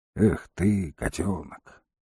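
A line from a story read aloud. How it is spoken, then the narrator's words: Soft and tender. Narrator (Russian): сказал он негромко, со всей лаской, на какую был способен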